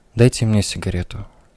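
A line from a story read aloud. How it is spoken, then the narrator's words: Flat, colorless voice. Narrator (Russian): бесцветным голосом произнесла женщина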